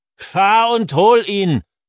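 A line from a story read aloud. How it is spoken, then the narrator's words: Old man roaring. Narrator (German): brüllt der Alte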